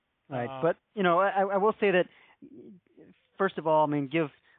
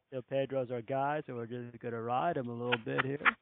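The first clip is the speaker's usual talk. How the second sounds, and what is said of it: Imitates another person's voice. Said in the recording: “impersonation. You do a great Grady Little... I love your Grady impersonation.”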